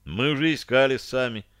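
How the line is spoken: Sighing. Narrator (Russian): вздохнул Шарлей

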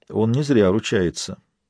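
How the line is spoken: Quiet. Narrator (Russian): тихо сказал лорд Аллен

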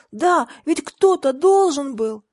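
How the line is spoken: Heated exclamation. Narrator (Russian): воскликнула Тиффани горячо

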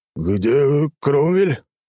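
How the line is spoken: Stunned, forced out. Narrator (Russian): только и смог выдавить из себя пораженный Гунфрид

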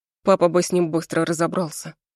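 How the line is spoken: Sullen child muttering. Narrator (Russian): бормочет сын насупленно

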